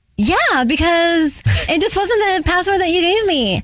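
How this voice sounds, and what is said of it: Imitates her teenage daughter's voice. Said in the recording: “that's a spot on impression of Alex... doing a spot on impression of her daughter”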